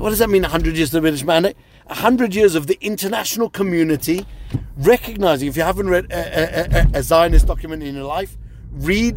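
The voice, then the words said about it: British accent with South African traces. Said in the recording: “people can hear your British accent, and I caught earlier also your South African uh, t- uh, t- words there”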